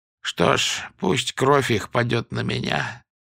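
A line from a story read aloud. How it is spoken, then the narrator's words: Very quiet, strained. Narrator (Russian): добавил очень тихо и сдавленно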